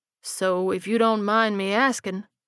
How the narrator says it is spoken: he drawled

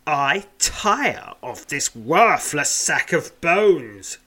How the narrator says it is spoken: growls Tarok

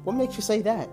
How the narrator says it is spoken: I asked

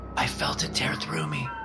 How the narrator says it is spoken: she whispered

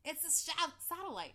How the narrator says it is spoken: shouted the pilot

